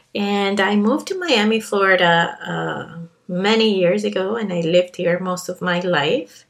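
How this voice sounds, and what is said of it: Colombian Spanish accent in English. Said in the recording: “I was born and raised in Colombia, hint, hint, my accent.”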